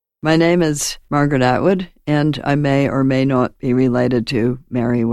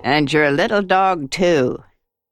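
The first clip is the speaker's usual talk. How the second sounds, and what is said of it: Wicked Witch of the West impression. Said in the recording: “I can always do a good imitation of the Wicked Witch of the Wizard of Oz any old time.”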